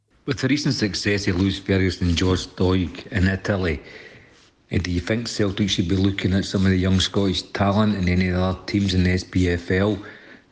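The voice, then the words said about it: Scottish East Coast brogue. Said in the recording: “You can hear his East Coast brogue coming through.”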